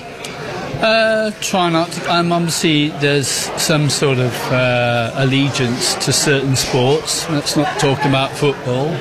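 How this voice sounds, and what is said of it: English accent. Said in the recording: “you got the English accent over there”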